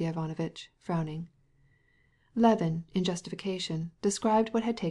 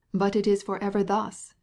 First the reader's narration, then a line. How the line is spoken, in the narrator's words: exclaimed Sergei Ivanovitch, interrupting